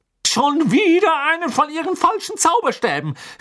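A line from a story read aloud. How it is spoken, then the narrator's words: Calling out. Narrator (German): rief sie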